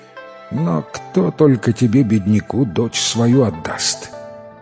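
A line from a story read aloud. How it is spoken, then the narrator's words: Uncle's heavy sigh. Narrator (Russian): Вздохнул дядя тяжело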